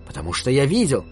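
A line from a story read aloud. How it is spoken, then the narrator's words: Shouted out. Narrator (Russian): выкрикнул Куна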